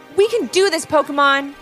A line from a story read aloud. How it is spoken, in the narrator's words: called out Levi over the sound of crashing and slamming all around